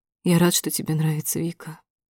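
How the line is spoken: Quiet. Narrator (Russian): тихо выговаривает Матвей

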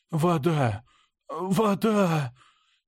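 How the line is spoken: Hoarse whisper. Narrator (Russian): Хрипло прошептал я

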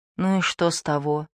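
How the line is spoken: Whisper. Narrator (Russian): шепотом сказал Дени

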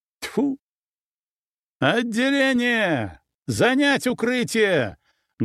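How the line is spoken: Loud command. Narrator (Russian): громко приказал я

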